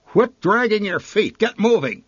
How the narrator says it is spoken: she barked

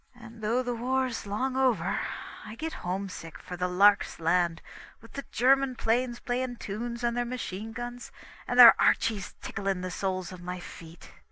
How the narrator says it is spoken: he sighed

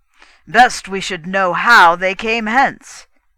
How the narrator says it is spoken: he growled

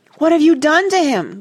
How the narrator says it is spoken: gasped Joe

